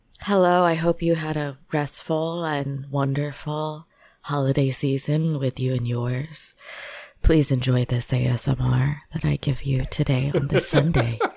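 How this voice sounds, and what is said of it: Soft soothing ASMR-style voice. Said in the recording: “Soothing as hell... you have a good ASMR voice... That's some NPR level right there.”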